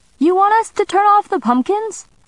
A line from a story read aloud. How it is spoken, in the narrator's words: Sammy shouted from the driveway